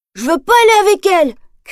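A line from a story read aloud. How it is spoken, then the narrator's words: Shouted. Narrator (French): crie Nemo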